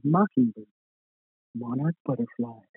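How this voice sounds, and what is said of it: Creepy smooth voice. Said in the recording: “out in his creepy smooth voice.”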